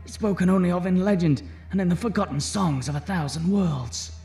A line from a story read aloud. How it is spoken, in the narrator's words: pleaded Carl